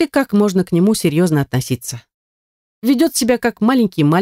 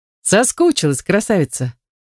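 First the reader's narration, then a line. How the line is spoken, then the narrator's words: Playful. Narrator (Russian): задавая вопрос игривым тоном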